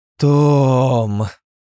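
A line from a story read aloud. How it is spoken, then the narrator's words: Drawn out, mock stern. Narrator (Russian): протянула женщина с напускной строгостью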